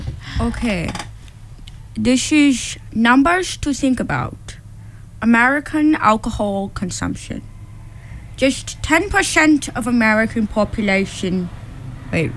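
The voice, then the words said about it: Put-on accent. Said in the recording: “in a fun new accent. ... Because she's very good at that. ... Where is this accent?”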